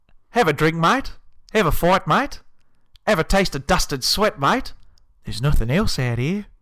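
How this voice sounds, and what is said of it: Put-on Australian accent. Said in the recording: “Should I do it in an Australian accent? ... Australian.”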